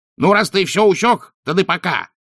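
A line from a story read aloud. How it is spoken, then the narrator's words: Snapped rudely. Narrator (Russian): огрызнулся уродец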